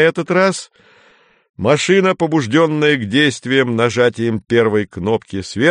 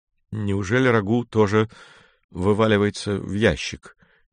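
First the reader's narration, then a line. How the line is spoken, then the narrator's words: Uncertain mutter. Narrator (Russian): неуверенно пробормотал Женя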